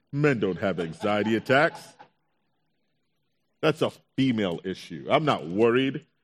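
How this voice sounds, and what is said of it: Deliberately deeper, lowered voice. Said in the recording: “my voice got deeper too”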